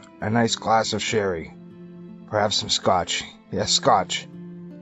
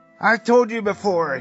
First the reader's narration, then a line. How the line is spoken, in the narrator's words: yelled